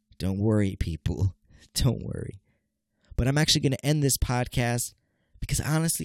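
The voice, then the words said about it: Nasal, congested voice. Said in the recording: “I'm sound nasally, people. Yes, I'm a little congested.”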